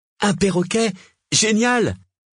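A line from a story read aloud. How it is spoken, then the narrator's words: Exclaimed. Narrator (French): s'écria-t-il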